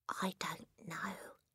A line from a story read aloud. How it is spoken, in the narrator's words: Matilda whispered back